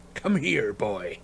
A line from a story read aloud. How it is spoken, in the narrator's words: said Moody gruffly